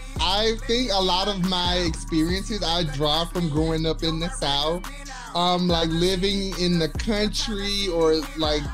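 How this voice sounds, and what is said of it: Southern Alabama twang. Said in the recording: “I can hear that Alabama twang and I love it.”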